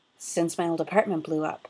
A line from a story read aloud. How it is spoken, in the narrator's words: he said